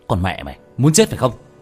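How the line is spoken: Teeth-gritted angry shout. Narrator (Vietnamese): Tiểu Thất nghiến răng nghiến lợi quát lên

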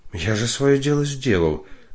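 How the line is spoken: Babbling. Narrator (Russian): залепетал Борис Борисович

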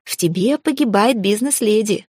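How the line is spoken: Laughing. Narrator (Russian): рассмеялась я

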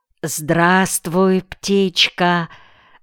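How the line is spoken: Affectionate greeting. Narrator (Russian): ласково приветствовал Зиару Куса

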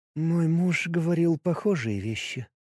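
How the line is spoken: Quiet. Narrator (Russian): сказала она тихо

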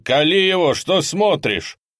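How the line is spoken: Shouting. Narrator (Russian): Другой человек кричал

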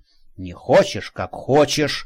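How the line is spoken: Grumbling. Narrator (Russian): проворчал Женька

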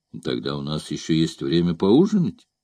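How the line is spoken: Calm. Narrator (Russian): спокойно ответил корсар

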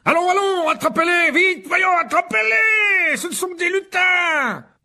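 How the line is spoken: Shouting. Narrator (French): hurla Lockhart

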